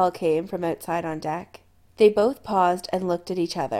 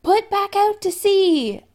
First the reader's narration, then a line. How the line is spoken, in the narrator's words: yelled